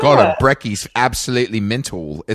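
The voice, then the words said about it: Put-on Australian accent. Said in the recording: “Australians try to steal it from us ... I'm not even going to try that accent.”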